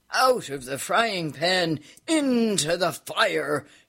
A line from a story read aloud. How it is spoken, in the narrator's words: shouted the Count, burning himself badly